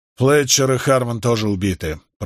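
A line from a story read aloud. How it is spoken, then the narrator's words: Through gritted teeth. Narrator (Russian): процедил Милфорд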